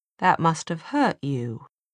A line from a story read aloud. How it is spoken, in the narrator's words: Jem said in his most soothing voice